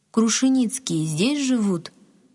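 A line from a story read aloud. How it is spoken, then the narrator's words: Plain. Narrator (Russian): спросил Василий Тимофеевич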